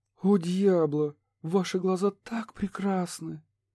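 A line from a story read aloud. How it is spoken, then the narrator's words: Ecstatic moan. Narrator (Russian): простонала извращенка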